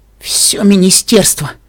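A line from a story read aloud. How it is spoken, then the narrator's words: Moaning. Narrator (Russian): простонала Пинкамина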